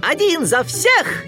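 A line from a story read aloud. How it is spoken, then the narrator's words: Joyful shout. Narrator (Russian): Микки радостно выкрикнул девиз мушкетеров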